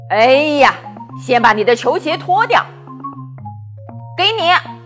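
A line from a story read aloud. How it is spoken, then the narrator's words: Hollering. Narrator (Chinese): 爸爸就在厨房里嚷嚷着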